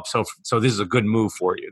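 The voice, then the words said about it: Sarcastic tone. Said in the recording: “you can hear the sarcasm in my voice”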